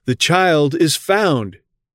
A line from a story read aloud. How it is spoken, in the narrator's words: a shout was raised